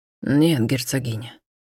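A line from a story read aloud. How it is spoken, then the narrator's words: Hoarse reply. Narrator (Russian): хрипло ответил Альтаир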